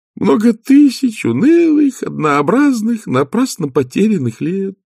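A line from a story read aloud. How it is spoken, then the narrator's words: Muttered. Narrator (Russian): пробормотал он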